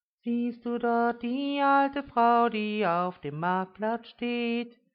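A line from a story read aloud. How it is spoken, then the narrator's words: Sudden loud singing. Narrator (German): sang Uschi plötzlich laut los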